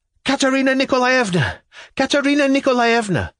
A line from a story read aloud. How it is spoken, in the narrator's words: I cried senselessly like a fool